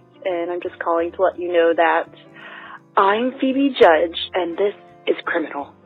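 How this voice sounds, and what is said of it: Impression of Phoebe Judge. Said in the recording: “impersonate you all the time, Phoebe... I'm going to do the Phoebe Judge voice.”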